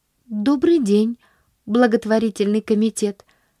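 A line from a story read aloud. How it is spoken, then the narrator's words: Polite but unsure. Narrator (Russian): Вежливо, хоть и неуверенно произнесла она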